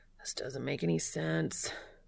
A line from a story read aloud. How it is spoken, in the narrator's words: he moans to himself